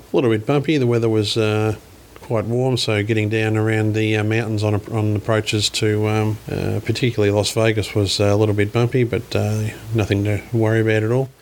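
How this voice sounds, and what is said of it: Australian accent. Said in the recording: “he picked up on my accent, of course”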